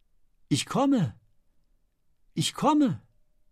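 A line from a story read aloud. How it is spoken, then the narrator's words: Calling out as if answering. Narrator (German): rief, als wenn sie einer Stimme antwortete, die sie gerufen hatte und die nur sie allein hörte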